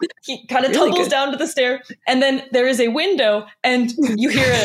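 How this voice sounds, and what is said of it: Usual voice. Nothing is said of it.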